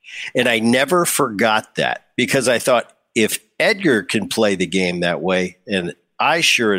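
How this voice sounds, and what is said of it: Usual voice. Nothing is said of it.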